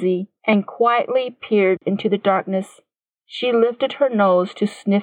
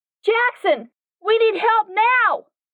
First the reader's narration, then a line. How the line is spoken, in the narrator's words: Katie screamed with her mind